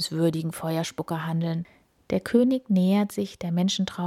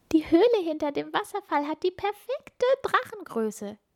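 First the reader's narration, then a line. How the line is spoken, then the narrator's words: Group giggling. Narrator (German): kichern sie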